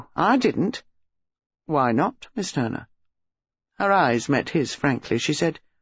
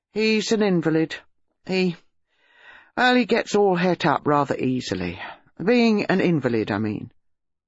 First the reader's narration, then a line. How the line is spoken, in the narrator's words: She said, rather sullenly